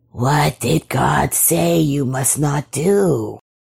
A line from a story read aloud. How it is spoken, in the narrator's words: it whispered